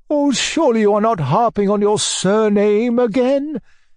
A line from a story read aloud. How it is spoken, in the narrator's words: cried my uncle in alarm